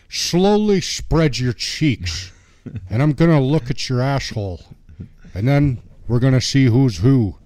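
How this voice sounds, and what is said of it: Poor Sean Connery-style accent impression. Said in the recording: “Mike Connery's terrible. I'm a terrible accent.”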